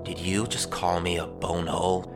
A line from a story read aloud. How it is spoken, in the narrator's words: grunted, still disturbed by the shrieking